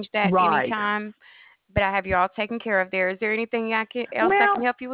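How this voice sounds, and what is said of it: Southern US accent. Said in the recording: “I figured I knew from your accent you were from the South”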